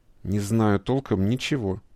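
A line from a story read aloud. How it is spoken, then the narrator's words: Through gritted teeth. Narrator (Russian): процедил сквозь зубы начальник штаба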